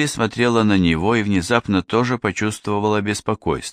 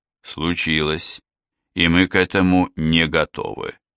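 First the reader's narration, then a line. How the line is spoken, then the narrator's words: Gloomy. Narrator (Russian): мрачно кивнул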